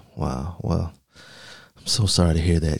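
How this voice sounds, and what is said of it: Mock-concerned, exaggerated sympathetic tone. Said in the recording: “you can hear the concern in my voice.”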